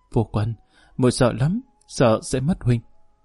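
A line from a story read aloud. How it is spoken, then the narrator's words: Sobbing woman. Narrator (Vietnamese): Phong Nghi Nô khóc lóc hồi lâu, nức nở nói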